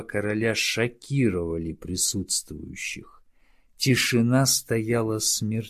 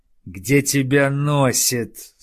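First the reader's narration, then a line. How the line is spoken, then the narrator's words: Growled. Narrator (Russian): зарычал Тардус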